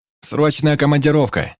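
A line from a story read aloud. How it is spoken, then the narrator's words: Shouting, imitating gnome's thunderous voice. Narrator (Russian): прокричал, подражая громовому голосу гнома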